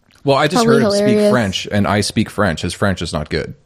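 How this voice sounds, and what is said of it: Slight French Canadian accent. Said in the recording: “Are you French Canadian? ... I thought I heard like a little bit of an accent.”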